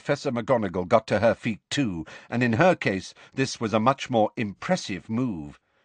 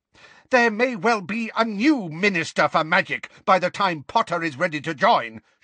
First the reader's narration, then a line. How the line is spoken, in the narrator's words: shouted Professor McGonagall